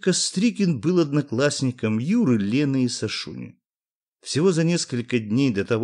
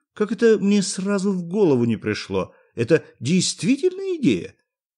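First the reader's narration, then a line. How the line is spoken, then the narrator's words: Mocking yet respectful. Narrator (Russian): сказал по обыкновению насмешливо, но в то же время уважительно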